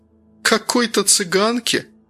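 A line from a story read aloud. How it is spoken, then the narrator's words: Mocking chuckle. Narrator (Russian): вслед ей хохотнула модная особа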